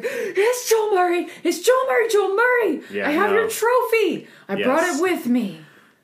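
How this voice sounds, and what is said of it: Excited young anime-character-like voice. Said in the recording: “That was a great impression of me. I sound somewhat like a young anime character.”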